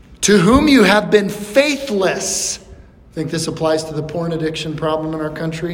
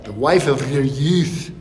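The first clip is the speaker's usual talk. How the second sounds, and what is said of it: Scottish accent put on. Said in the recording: “With a Scottish accent.”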